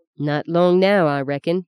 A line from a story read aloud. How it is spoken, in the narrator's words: he said